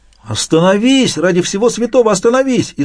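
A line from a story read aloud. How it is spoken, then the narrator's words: Frightened shout. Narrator (Russian): испуганно закричал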